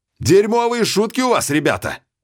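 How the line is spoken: Shout into emptiness. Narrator (Russian): крикнул Ян, как и раньше, в пустоту

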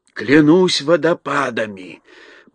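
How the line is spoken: Sailor whispering. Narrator (Russian): прошептал моряк

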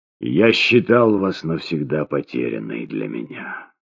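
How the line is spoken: Hollow, muffled voice. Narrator (Russian): глухим голосом начал он

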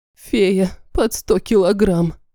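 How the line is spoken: Sad wry chuckle. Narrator (Russian): грустно усмехнулась

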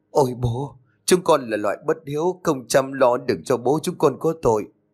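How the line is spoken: Trembling, tearful. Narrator (Vietnamese): cả bà đứa đều run rẩy, nước mắt lưng tròng mà nói

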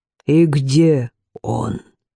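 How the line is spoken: Plain. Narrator (Russian): спросил глава ордена

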